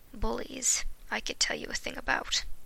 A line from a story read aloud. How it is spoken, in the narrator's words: he sighed